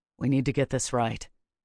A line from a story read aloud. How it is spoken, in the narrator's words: Riffin said quietly, speaking as much to himself as to the bridge crew